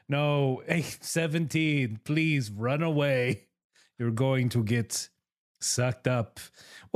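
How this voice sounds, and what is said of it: Speaks in an unidentified put-on accent. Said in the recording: “What is this accent I have now?”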